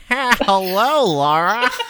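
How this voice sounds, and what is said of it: Imitates another person's voice. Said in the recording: “my Roseanne impression”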